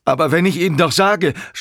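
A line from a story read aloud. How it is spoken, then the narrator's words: Shouting. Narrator (German): schrie Walter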